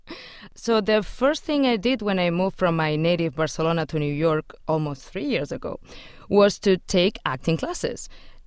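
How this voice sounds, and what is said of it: Noticeable foreign accent in English. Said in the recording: “And you do have an accent.”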